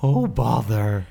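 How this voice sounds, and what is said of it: Winnie the Pooh cartoon voice. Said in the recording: “do a Winnie the Pooh impression ... It's a really hard accent, really hard voice. ... it breaks in a certain way ... It's a certain pitch”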